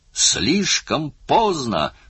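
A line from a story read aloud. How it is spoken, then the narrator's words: Yelling. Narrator (Russian): орал он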